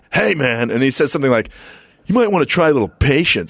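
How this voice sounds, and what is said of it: Impression of Kimo's voice. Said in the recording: “don't give him that voice again ... You don't remember how he talked? ... He's like talking like that.”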